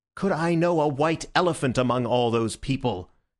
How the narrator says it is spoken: answered Syme somewhat irritably

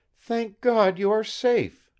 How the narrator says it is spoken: exclaimed Eva

